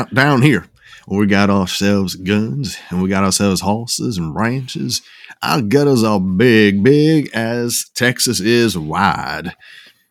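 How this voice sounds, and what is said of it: Exaggerated Southern US accent. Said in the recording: “that's the wrong accent for where I where I live... You went Georgia”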